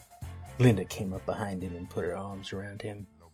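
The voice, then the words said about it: Put-on Southern accent. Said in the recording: “What is that accent? ... Going all southern.”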